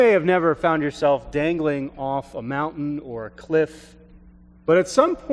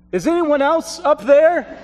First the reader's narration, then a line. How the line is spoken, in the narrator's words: After several moments of hesitation and with fear, the hiker yelled back